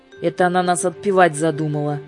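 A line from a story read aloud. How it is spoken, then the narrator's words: Gloomy. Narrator (Russian): мрачно сказала Юлька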